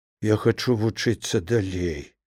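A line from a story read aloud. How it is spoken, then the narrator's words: Quiet, head lowered. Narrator (Belarusian): Не падымаючы галавы, Ліда ціха прамовіла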